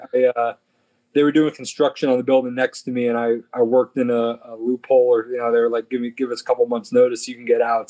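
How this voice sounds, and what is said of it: East Coast American accent. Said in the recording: “that's not a Las Vegan accent. You know, you're from back east.”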